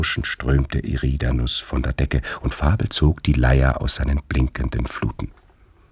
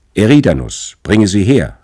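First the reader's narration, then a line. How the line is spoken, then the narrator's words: King calling out. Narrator (German): rief der König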